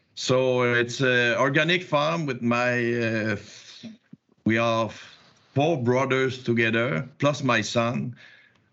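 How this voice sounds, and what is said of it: Quebec French accent in English. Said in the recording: “I'm in Quebec, you probably see with my accent.”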